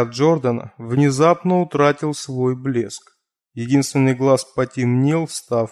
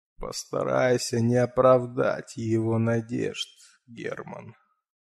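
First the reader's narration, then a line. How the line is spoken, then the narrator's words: Quiet, fatherly. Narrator (Russian): Джордан вдруг тихо, по-отечески произнес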